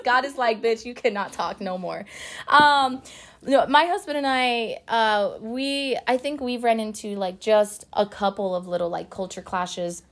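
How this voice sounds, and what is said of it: Hoarse, fading voice. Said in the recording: “no wonder I'm losing my voice.”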